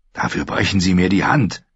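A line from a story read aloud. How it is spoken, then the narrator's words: Growled. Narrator (German): knurrte er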